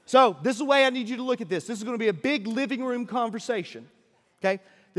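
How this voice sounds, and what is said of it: Deep South American accent. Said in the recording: “by my accent, but I'm from the deep south”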